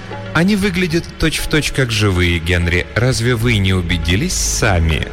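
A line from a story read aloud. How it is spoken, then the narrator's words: Insinuating question. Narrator (Russian): вкрадчиво спросила она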